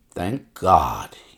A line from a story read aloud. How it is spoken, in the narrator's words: he muttered